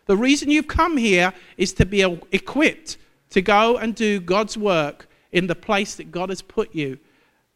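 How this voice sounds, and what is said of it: Southern accent. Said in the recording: “the same southern accent as Levi”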